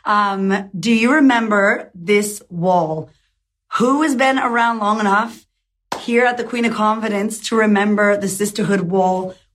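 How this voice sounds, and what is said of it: Weak voice, still recovering. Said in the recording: “my voice is slowly coming back”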